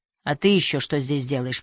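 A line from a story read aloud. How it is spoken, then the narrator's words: Grumbling. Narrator (Russian): проворчал Нюберг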